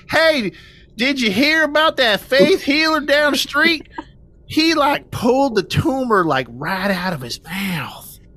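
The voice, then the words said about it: Put-on rural Indiana accent. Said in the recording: “Indiana, impoverished area... I got to pull out the accent”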